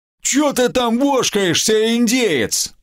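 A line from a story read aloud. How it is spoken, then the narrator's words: Furious loud yell. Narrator (Russian): взъярившись, заорал гоблин на всю округу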